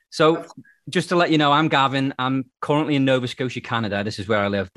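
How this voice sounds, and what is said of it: British accent. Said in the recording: “as you can tell by the accent, I'm from the UK”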